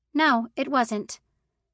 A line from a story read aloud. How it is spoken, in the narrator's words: She said curtly